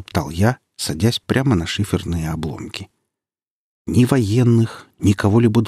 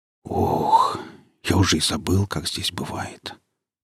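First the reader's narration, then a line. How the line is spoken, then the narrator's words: Whispered. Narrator (Russian): шепотом сказал фельдшер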